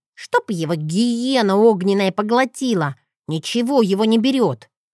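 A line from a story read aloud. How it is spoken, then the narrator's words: Grumbled. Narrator (Russian): проворчал рыжий Джет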